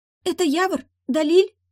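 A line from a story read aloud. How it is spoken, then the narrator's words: Girl exclaiming. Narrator (Russian): воскликнула девочка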